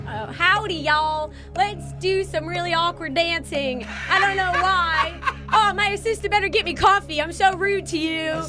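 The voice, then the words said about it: Rude southern-drawl impression of a woman. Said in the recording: “got a southern drawl ... I can't really do like an in between southern accent ... That impersonation was very rude southerner”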